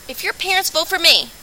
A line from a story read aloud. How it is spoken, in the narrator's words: I bellowed into the microphone